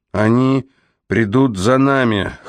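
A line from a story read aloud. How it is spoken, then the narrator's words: Hoarse voice. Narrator (Russian): хриплым голосом сказал Сокол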